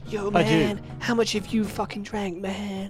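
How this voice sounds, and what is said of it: Impression of co-host's voice. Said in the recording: “Is that your impression of me? ... That's how you sound.”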